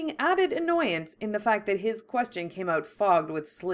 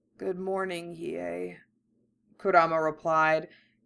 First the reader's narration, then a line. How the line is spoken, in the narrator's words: his own voice rasping and weak